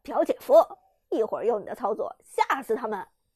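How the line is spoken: Relaxed, smiling. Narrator (Chinese): 陈烨悠闲的…笑着说道

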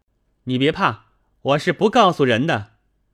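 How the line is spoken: Called out. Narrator (Chinese): 宝玉叫道

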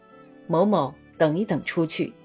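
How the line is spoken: Quiet, serious. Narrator (Chinese): 他用很轻而严肃的声音郑重地说

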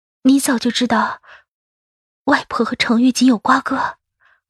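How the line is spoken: Trembling voice. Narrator (Chinese): 声音发颤

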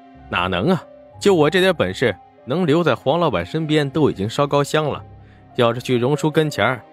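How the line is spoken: Laughing. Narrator (Chinese): 沈梦生……立刻笑道

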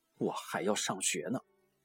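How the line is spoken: Displeased grumbling mutter. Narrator (Chinese): 我心中不快，嘟囔着说

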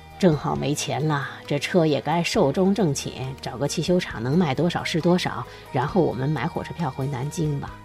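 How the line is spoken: Sighing. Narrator (Chinese): 管春叹口气说

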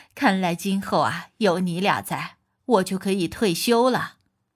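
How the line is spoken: Laughing. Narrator (Chinese): 大姑在旁边笑着说

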